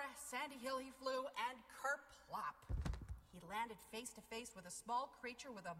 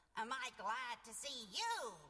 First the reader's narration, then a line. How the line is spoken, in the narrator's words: she cackled